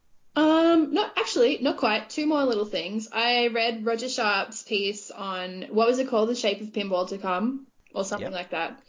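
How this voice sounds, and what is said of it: Broad Australian accent. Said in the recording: “my accent ... a bogan Aussie”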